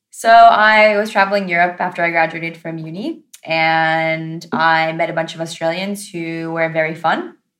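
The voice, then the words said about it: American accent. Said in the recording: “my accent is American”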